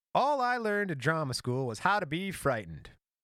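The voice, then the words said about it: Lucille Ball impression, mid-Atlantic accent. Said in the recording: “How does Balls sound? ... You got to get more of that mid-Atlantic accent.”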